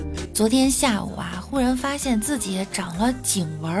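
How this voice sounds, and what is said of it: Usual voice. Nothing is said of it.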